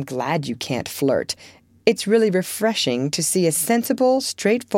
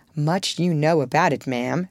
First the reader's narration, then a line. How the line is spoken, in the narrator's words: said Laurie in a superior tone